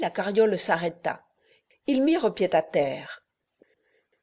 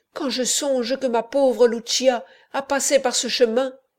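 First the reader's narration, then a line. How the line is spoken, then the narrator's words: Cry. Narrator (French): s'écria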